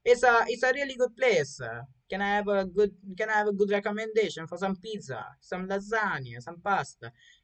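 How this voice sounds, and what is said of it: Put-on Italian accent. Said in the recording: “I forgot the Italian accent.”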